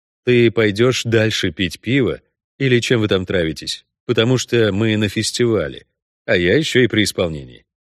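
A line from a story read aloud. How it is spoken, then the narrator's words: Calm. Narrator (Russian): спокойно сообщил Геральт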